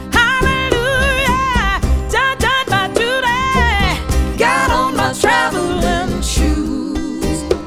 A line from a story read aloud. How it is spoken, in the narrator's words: And then he shout